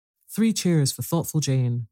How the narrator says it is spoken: cried Cyril, now roused at last from his yawning despair

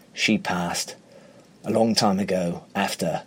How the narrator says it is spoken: His voice is husky as he replies

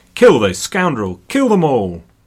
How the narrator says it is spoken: from the back, Philip himself shouted

